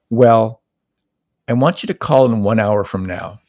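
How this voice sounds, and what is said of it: Stern parent voice. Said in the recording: “Kind of like in a parent voice.”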